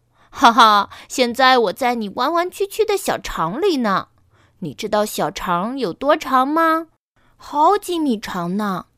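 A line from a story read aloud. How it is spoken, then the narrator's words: Loud laughter from inside belly. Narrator (Chinese): 肚子里传来一阵大笑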